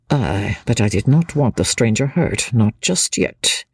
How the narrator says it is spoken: murmured Chauvelin, savagely

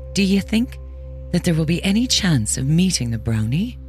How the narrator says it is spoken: she asked timidly

